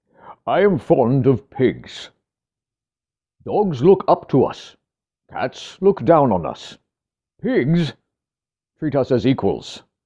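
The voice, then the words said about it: Imitates another person's voice. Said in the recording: “pardon the accent”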